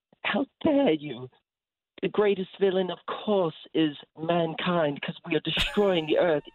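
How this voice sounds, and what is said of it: Imitates another person's voice. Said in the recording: “channel my inner Greta Thunberg ... that's a really good impression ... that's a pretty offbeat impression”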